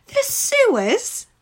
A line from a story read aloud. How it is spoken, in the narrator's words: Ruskin exclaimed